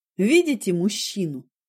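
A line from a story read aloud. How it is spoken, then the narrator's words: Plain question. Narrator (Russian): спросил меня доктор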